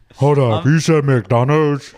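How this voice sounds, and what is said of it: Mock news anchor voice. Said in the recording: “Is that your news voice? ... That's your Don Lemon. ... your Don Lemon impression. ... That one was dumb guy bit.”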